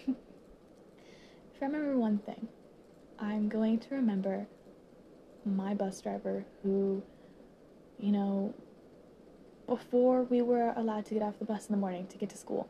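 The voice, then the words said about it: Teary, emotional voice. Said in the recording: “Oh, teary-eyed again. Teary-eyed again ... I'm getting teary-eyed again”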